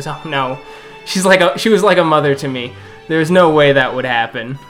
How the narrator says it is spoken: Harold laughs and goes

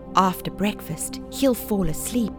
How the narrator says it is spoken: whispered

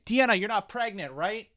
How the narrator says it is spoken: yelling up at Deanna

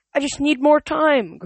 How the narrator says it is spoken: Grover pleaded

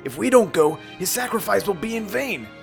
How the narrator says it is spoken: He yelled at Sonic

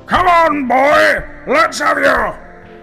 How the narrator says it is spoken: roared Burke

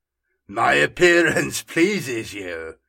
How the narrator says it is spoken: laughed the Fallen

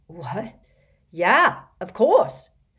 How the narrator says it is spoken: said Dean excitedly

